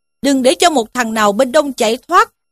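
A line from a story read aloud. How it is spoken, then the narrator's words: Commanding shout. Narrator (Vietnamese): một tiên sinh, miệng quát lên rằng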